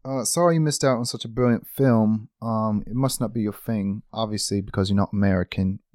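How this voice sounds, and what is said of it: Put-on British accent, slipping. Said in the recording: “Stopped talking in the British accent. We've been British this whole time. ... That accent deteriorated so fast.”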